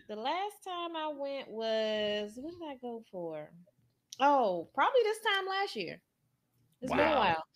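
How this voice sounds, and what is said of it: Strong Maryland accent. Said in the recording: “Cause I can hear it, that accent all night. ... when you say certain words, that dialect / accent been coming. I'm like, girl, that shit strong.”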